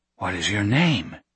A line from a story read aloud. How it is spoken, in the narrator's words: Nate asked, his voice a whisper